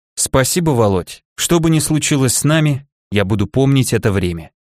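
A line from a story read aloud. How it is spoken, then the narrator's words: Quiet. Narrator (Russian): тихо сказала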